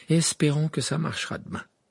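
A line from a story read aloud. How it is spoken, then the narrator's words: Sigh. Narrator (French): soupira Harry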